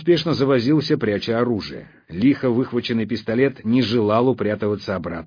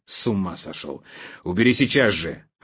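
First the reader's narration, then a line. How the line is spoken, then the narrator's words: Growl. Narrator (Russian): рыкнул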